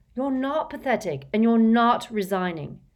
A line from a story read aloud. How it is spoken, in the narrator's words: said Harry fiercely